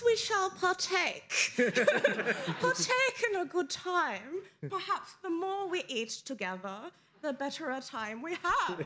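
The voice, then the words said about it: Put-on accent. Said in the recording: “this accent is going places”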